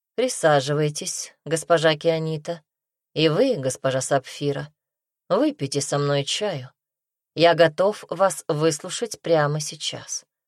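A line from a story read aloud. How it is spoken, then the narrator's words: Calm. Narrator (Russian): спокойно сказал Дарсу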